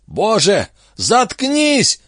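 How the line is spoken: Guard yelling. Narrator (Russian): заорал гард

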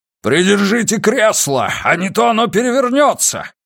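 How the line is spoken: Roared. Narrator (Russian): проревел Уайерман

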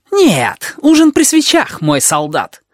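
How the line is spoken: Snapped. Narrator (Russian): огрызнулся табаки

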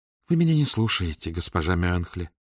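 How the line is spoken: Sad, smiling tone. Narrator (Russian): грустно улыбнулась Летиция

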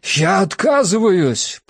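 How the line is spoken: Thundering. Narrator (Russian): прогремел мой ответ

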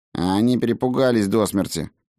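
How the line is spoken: Grumbling. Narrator (Russian): проворчал Фредегар

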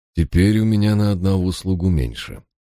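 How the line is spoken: Calm. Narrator (Russian): спокойно продолжил лорд Парр

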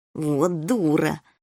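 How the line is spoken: Through clenched teeth. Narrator (Russian): процедил сквозь зубы полосатый

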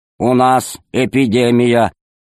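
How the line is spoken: Creaky voice over speaker. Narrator (Russian): проскрипел голос в динамике

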